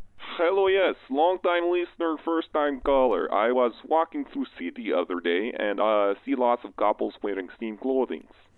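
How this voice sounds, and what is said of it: Very thick Eastern European accent. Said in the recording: “very thick accent there. Obviously, he's not Canadian. ... I was going to guess Yugoslavian or something.”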